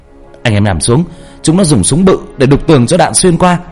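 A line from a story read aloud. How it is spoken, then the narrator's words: Urgent shout. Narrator (Vietnamese): Ba la lên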